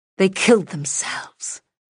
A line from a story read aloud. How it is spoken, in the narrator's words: she whispered